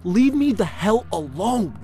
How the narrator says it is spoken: I screamed at the top of my lungs whilst hot tears streamed down my quivering face

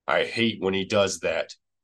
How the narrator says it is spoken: he growled

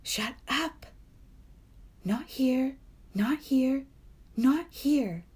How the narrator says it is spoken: Sophie said desperately

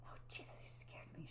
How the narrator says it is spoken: she whispered

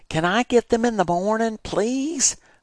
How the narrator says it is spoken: I begged

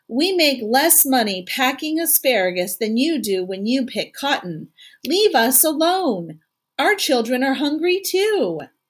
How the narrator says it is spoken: One of the women from the camp called out

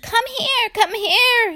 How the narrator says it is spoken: little fellow shouted and screamed

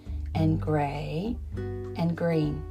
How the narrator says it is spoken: said Caleb slowly

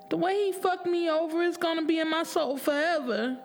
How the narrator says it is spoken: she cried

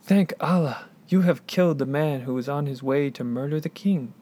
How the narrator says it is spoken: The rider exclaimed

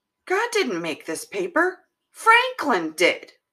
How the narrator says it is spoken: Anthony piped up and he said to Corbin, he said

